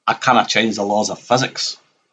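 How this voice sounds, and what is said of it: Imitates a character's accent. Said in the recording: “with the accent”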